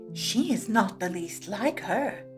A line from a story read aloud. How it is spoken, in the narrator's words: the kittens whispered among themselves